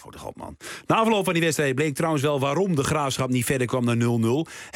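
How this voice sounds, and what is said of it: Twente regional Dutch accent. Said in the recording (Dutch): “Is het mijn accent? Ik spreek Twents, hè?”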